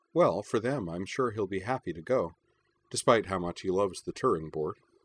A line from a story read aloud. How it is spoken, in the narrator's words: she added dryly